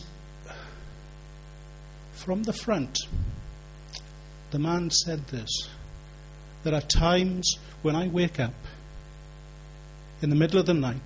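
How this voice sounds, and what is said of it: Welsh accent. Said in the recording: “you can tell, Welsh accent”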